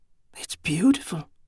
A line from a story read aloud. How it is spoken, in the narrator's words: half-whispered